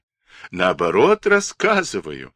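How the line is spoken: Laughing. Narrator (Russian): рассмеялся Андрей

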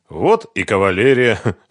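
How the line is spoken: Snorting smirk. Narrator (Russian): хмыкнул Ренат

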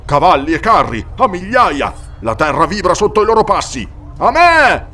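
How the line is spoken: Thundering, valley-filling voice. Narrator (Italian): La sua voce tuonò per tutta la valle

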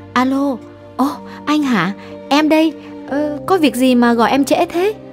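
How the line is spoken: Feigned innocent question. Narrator (Vietnamese): giả vờ ngây thơ hỏi

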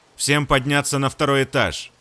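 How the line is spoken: Loud command. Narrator (Russian): Громко скомандовал он

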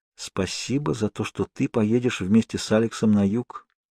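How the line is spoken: Said quietly. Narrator (Russian): тихо проговорила Нана

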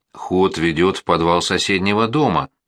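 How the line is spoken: Plain. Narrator (Russian): сказал я

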